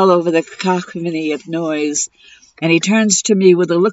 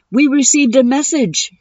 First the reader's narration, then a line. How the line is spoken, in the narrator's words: he blurts out nervously, like he accidentally spilled a secret